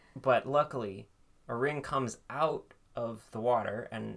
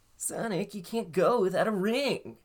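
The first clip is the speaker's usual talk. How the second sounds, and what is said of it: Teen-sounding character voice. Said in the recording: “He sounds like a teen. ... doing his other voice”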